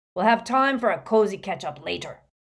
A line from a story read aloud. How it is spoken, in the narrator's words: roared Moody over the hubbub